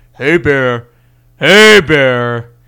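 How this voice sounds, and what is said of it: Very deep voice. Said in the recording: “You got to make your voice real deep ... in just a very deep voice”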